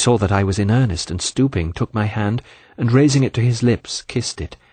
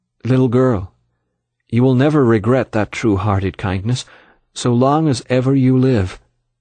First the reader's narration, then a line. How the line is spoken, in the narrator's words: He said quite calmly